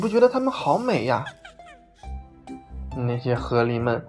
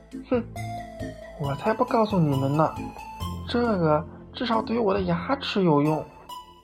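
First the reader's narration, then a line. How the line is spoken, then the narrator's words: Quiet aside. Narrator (Chinese): 河狸先生小声的补了一句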